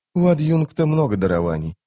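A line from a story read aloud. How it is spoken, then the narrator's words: Muttering. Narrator (Russian): пробормотала рваная снасть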